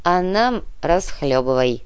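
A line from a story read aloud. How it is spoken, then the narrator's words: Grumbling. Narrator (Russian): проворчал Никита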